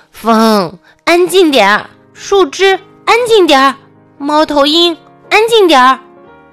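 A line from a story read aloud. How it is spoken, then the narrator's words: Loud commanding. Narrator (Chinese): 大老鼠大声的命令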